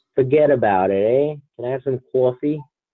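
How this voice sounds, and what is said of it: Exaggerated put-on New Jersey accent. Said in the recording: “I guess that's what they want me to sound like, or think I sound like, or think Jersey people sound like.”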